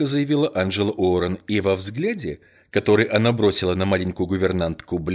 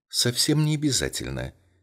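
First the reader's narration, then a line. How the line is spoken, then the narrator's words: Gentle objection. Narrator (Russian): мягко возразил Эркюль Пуаро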